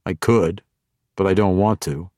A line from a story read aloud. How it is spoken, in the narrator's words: Zack replied